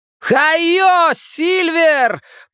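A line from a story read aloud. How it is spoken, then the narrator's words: Shouting. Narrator (Russian): прокричал Билл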